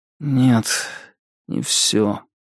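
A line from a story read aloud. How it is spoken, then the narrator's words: Lifeless voice. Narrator (Russian): ответил Уэсли таким безжизненным голосом, какого я от него никогда не слышал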